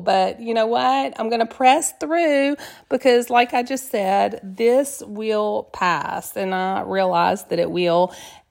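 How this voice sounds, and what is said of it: Sick, rough-sounding voice. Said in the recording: “COVID ... hear it in my voice. Anyone that's called has said, you sound terrible,”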